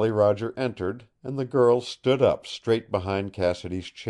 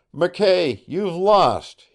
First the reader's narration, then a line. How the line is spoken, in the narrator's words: he cried